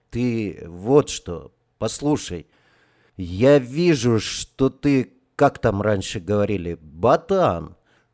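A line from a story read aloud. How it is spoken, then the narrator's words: Unexpectedly soft. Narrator (Russian): неожиданно мягко продолжал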